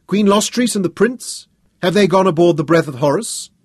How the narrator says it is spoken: Tanus shouted over the heads of the crowd

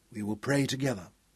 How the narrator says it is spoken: Hal said softly

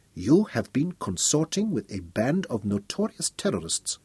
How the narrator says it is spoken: said Nogo softly

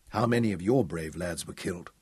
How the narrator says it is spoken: Hal lowered his voice as he touched on such a morbid subject

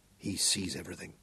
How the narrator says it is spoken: Hal murmured

